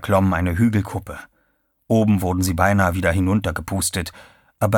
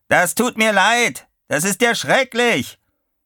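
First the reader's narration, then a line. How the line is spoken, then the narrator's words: Bellowing. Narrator (German): brüllte Chuck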